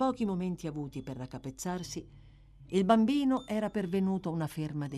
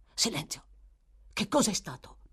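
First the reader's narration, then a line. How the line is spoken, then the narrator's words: Whispered. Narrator (Italian): bisbigliò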